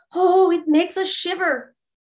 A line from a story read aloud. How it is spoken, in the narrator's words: the listeners exclaimed